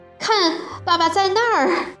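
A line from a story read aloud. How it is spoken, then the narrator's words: Child's cry. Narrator (Chinese): 弟弟叫起来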